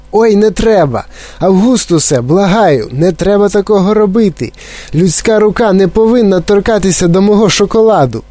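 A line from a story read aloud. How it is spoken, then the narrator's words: Alarmed shout. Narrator (Ukrainian): Коли містер Вонка обернувся і побачив, що робить Августус Глуп, то закричав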